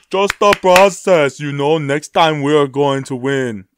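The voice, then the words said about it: Joel Embiid impression. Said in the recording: “That was Joel Embiid, by the way... that Joel Embiid impression”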